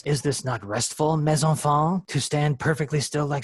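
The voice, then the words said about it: Bad exaggerated French accent. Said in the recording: “a bad Monty Python French accent”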